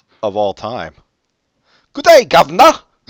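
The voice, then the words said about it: Mock British accent, Dick Van Dyke. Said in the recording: “Dick Van Dyke put the best British performance ever in Mary Poppins”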